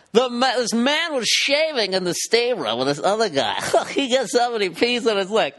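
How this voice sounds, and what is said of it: TMZ show reporter impression. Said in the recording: “my TMZ impression”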